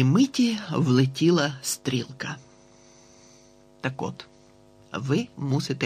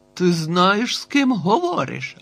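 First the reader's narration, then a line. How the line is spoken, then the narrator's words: Barked. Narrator (Ukrainian): гаркнув Б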